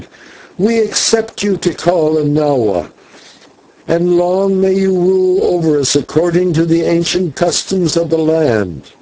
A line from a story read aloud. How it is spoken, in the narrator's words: the rest cried